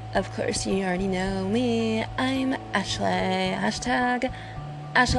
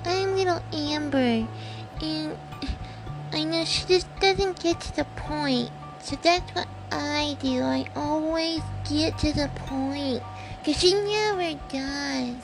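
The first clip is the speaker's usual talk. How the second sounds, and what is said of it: Comedic character voice. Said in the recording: “I do voice impersonations, so I would like to be able to do my comedy, you know, voice impersonations, my personalities”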